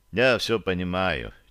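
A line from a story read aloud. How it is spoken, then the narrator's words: Quiet. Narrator (Russian): тихо произнес я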